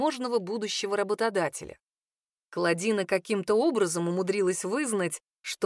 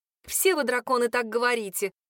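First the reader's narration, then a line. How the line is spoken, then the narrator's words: Scornful snort. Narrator (Russian): фыркнула официантка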